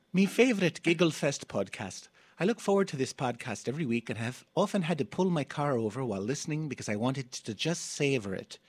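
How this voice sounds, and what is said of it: Attempted Irish accent. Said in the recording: “I'm going to attempt an Irish accent as I read it.”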